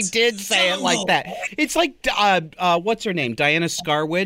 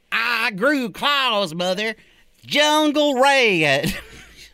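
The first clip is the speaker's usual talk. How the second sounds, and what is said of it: Put-on Southern accent. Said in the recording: “I don't know why I always say it that way, because Norma Shearer didn't have a southern accent”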